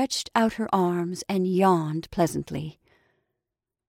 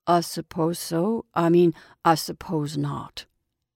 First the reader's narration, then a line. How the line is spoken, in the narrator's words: murmured Jim